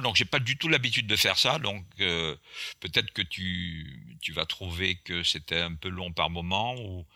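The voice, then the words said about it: Strong Antillean French accent. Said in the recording (French): “j'ai un accent antillais qui est assez fort, qui s'entend à l'horizon”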